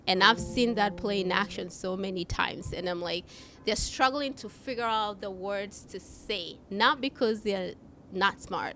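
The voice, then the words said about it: Non-native English accent. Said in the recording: “I have an accent ... English is my third language”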